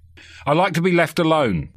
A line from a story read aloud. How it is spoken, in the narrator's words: he snapped